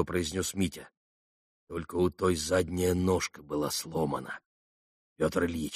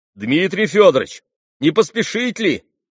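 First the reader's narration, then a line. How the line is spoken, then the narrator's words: Suddenly shouted. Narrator (Russian): крикнул вдруг у дверей лавки Андрей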